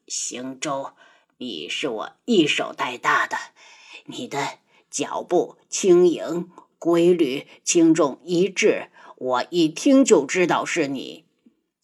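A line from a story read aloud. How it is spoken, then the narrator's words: Sighing, halting elder. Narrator (Chinese): 大长老叹了口气，声音断断续续的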